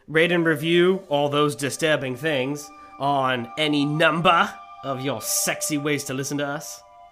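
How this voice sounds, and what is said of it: Surprisingly good put-on Australian accent. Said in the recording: “You Australian, though? ... That was an Australian accent. ... a surprisingly good Australian accent”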